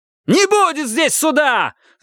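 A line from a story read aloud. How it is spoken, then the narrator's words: Yelling. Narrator (Russian): заорал Рид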